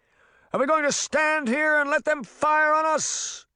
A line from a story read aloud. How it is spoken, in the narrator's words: King Arthur shouted